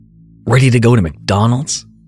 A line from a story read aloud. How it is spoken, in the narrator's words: he blurted out